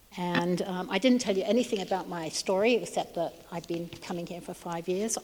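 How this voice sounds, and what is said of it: Hard-to-place mixed English accent. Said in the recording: “I speak with a funny accent. In Britain, where I was born, they think I'm an American. Here, they think I'm either Australian or South African ... I pick up accents wherever I am”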